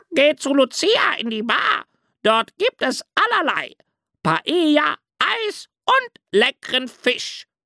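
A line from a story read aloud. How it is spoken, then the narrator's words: Parrot screeching. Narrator (German): kreischte ein Papagei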